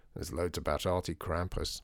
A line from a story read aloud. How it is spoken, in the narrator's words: said her father